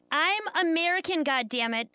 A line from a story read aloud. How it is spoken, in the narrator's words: yell